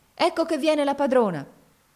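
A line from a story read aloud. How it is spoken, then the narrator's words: Boy shouting. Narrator (Italian): uno dei ragazzi gridò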